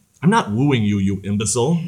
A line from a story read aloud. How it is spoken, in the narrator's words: Basilio snapped